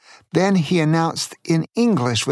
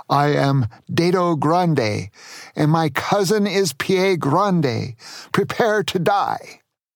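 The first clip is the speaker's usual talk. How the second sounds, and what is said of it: Heavy German accent. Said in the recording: “with a heavy German accent”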